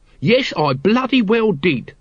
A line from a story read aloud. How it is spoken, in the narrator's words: said Nobby hotly